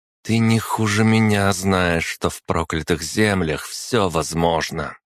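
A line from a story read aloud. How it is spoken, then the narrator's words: Through gritted teeth. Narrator (Russian): процедила Вавилова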